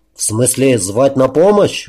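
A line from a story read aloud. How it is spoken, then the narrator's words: Laughing question. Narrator (Russian): уточнил Олег и засмеялся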